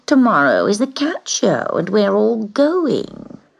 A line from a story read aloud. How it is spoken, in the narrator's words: said scornfully